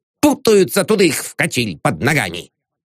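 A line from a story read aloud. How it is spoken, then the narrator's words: Grumbling. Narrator (Russian): Безимчук обидчиво ... проворчал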